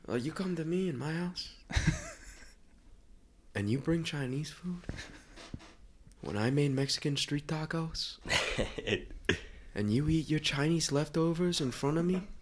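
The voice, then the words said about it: Put-on Italian-American mobster accent. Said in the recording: “Tonight's definitely going to be an Italian accent ... The Godfather ... you're pretty good at doing the Guido accent.”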